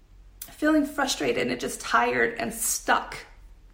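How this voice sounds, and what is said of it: Emotional, choked-up voice. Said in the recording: “Oh my gosh, I'm getting emotional.”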